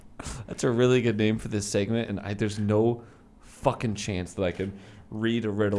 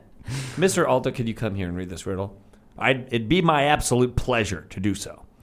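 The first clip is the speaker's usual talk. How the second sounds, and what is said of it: Imitates another person's voice. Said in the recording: “I'm gonna get a little bit more of an Alan Alda. This is as best as I can do.”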